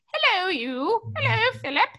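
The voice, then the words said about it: Put-on English accent. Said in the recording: “an English accent”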